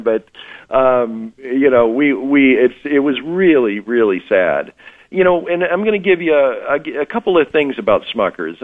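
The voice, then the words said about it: Tired, exhausted-sounding voice. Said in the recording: “you may hear from my voice, I'm a little bit exhausted”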